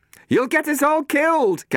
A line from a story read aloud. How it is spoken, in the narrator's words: Catherine yelled at her